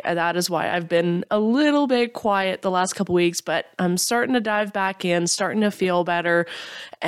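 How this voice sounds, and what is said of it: Congested, stuffy voice. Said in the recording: “my voice sounds a little off... battling a cold... I'm still feeling stuffed and phlegmy”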